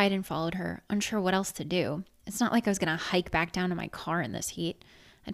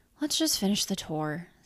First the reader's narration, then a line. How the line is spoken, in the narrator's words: said Haley, her voice tired and drawn